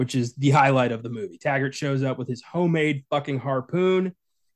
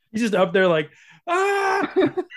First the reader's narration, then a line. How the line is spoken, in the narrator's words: Like screaming absolute terror